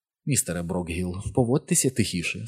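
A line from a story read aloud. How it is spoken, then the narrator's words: Fairly gentle voice. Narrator (Ukrainian): сказала вона доволі лагідно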